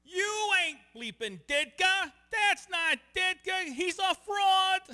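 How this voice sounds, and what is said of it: Raspy Chicago accent. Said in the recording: “raspy Chicago accent”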